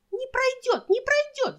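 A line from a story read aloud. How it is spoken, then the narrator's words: Two women shrieking. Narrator (Russian): завизжали обе подруги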